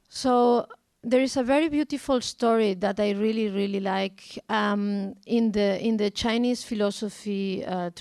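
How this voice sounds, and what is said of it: Strong Spanish accent in English. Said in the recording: “my English is also with a very strong Spanish accent”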